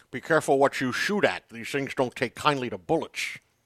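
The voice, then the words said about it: Sean Connery impression. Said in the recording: “That's your Sean Connery? That's not bad.”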